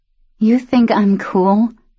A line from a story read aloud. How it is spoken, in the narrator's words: Luce asked, laughing quietly to herself